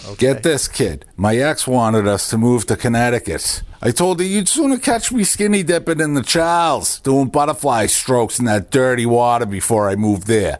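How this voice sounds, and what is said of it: Strong Boston accent. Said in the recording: “Those pipes. ... Who has Boston's best accent? ... the accented eight”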